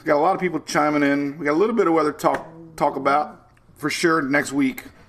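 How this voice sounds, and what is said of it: Hoarse, strained voice. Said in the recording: “I'm a little hoarse. ... my throat's not doing very good today.”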